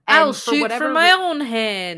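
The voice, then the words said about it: Bad put-on Southern accent. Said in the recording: “use really bad accents ... that like, was a southern accent”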